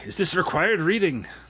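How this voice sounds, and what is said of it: Attempted Scottish accent, sounds Irish. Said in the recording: “can you do it in a Scottish accent? ... That might be Irish.”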